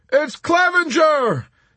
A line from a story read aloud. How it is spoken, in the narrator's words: They shouted